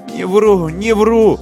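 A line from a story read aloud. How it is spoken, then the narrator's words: Whimpering. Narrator (Russian): захныкал тот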